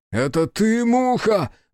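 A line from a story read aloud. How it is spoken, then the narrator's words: Roared. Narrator (Russian): взревел Биру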